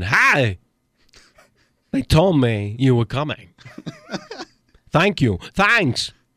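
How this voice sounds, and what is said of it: Imitates another person's voice. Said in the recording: “He's doing the voice! ... Christopher Walken impersonation”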